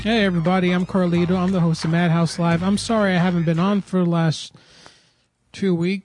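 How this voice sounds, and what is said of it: Hoarse voice. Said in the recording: “As you can hear from my voice is hoarse from being intubated.”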